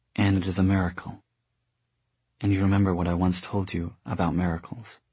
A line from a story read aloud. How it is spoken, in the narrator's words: she whispered